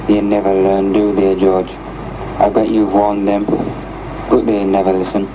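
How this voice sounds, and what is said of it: Wearside Sunderland English accent. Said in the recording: “a man with a Wearside accent, which linguistics narrowed down to the Castletown area of Sunderland”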